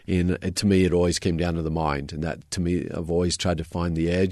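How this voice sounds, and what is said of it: Australian accent. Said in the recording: “As if the accent wasn't a dead giveaway, you mentioned growing up in Australia.”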